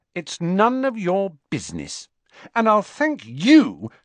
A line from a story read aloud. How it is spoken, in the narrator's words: she added angrily